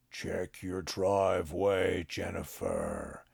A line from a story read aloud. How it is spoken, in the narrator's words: he intoned in a low and ominous voice